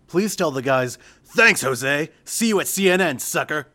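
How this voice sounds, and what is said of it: Imitates another person's voice. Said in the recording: “in my best Lynch King impression ... It's a terrible impression, but I tried ... It was terrible as hell.”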